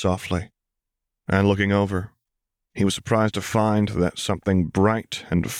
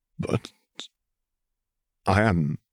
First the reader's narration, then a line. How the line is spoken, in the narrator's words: he muttered